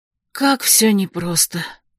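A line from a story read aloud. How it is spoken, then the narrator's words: Confused whisper. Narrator (Russian): прошептала я в замешательстве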